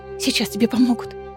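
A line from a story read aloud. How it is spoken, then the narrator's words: Hoarse whisper. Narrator (Russian): хрипло шептала Мануна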